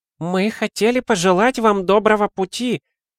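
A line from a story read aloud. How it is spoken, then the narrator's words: Exclaiming plump woman. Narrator (Russian): воскликнула полненькая дама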